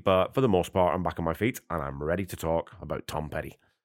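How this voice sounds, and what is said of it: Slightly scratchy voice. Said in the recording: “my voice is still a little bit scratchy”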